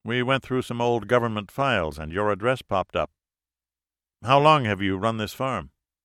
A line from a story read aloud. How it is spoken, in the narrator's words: Martin sighed